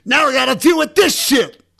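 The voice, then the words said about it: Imitates another person's voice. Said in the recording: “my best DMX impression.”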